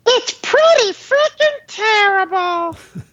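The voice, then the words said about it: Elmo impression. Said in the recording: “does a very good Elmo impersonation. /Elmo”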